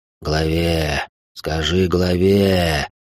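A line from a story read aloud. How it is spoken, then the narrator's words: Old man's wheeze. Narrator (Russian): прохрипел дед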